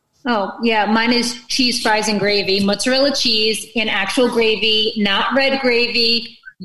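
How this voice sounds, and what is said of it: New York New Jersey accent. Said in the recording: “The New York, New Jersey accent just came out”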